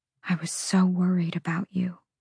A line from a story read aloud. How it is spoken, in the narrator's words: she whispered